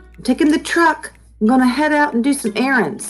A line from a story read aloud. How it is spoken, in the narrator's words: shouted Lolly